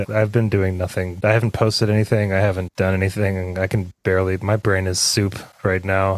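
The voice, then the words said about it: Tired, exhausted-sounding voice. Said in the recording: “I'm exhausted. I don't know if yeah, you can hear it in my voice. ... Oh, yeah. ... Yeah, I'm really tired.”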